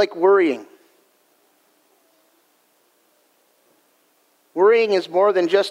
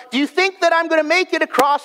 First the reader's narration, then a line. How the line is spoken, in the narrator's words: He would shout to the crowd